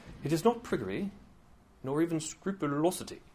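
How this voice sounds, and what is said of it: Put-on British accent. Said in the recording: “You can't say that without a British accent, can you? ... My wife does a better British accent than I do, actually.”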